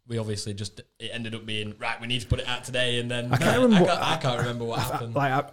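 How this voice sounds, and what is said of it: Strong Yorkshire accent. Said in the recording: “I've got a right strong Yorkshire accent.”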